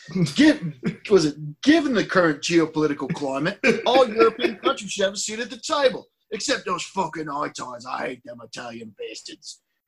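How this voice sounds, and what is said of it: Put-on British regional accent. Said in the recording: “You just sounded like Peaky Blinders. ... It was good. ... He's Welsh, so I even got the accent wrong.”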